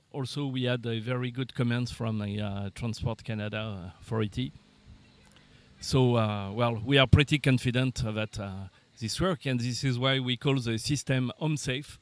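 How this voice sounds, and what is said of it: French accent. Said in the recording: “When you said that with your French accent, ... I honestly heard unsafe.”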